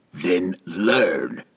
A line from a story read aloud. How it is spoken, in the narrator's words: The assassin roughly replied